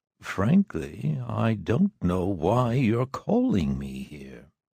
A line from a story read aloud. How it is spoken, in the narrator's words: said quietly